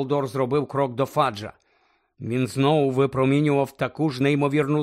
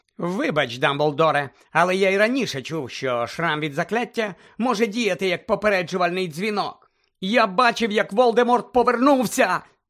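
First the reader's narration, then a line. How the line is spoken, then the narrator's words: Shouting. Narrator (Ukrainian): закричав Гаррі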